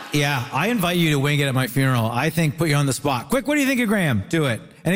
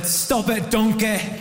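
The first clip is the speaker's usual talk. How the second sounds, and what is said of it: Very bad put-on Scottish accent. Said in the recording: “that was a very bad Scottish accent.”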